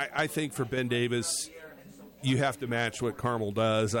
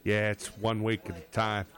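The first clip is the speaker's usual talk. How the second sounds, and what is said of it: Imitates another person's voice. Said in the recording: “my Cignetti impersonation”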